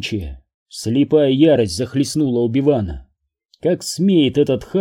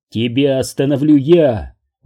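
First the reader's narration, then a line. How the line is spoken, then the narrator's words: Shout. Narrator (Russian): выкрикнул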